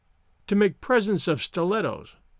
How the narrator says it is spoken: she murmured

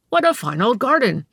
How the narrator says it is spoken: he exclaimed aloud

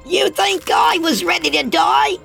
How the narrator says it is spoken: Oscar screeched in his young, high-pitched voice

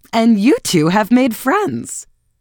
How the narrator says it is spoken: burst into a laugh instead, and looking from the Marchioness to Archer, asked abruptly

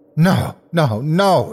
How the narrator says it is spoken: he cried

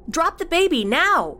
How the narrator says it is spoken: Cassie yelled out again

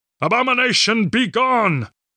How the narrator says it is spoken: he roared as he closed the gap

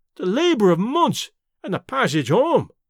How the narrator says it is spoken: Davy wailed

